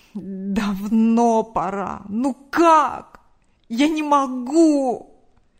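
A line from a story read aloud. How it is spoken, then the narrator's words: Man moaning. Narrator (Russian): Простонал мужчина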